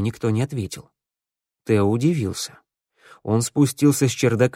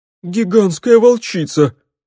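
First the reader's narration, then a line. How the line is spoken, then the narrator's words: Sobbing. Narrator (Russian): всхлипнула Фифика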